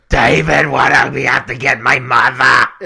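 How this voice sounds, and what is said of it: Imitates another person's voice. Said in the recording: “Is that Harvey Firestein? ... That's a pretty good impression.”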